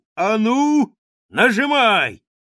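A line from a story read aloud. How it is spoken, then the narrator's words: Old beaver shouting. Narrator (Russian): старый бобер крикнул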